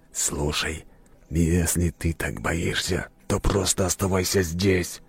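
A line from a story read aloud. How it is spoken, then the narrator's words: Hissed. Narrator (Russian): прошипел Сокол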